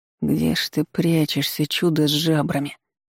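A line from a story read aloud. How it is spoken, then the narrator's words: Muttering under breath. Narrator (Russian): пробормотал под нос Даниил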